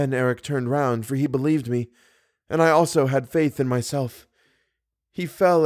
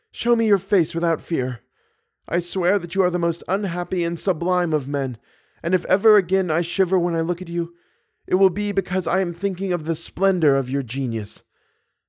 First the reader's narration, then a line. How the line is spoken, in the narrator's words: I cried